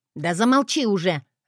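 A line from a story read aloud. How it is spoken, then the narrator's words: Barking. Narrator (Russian): рявкнула на нее Лилиан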